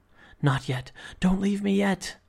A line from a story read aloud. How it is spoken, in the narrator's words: breathed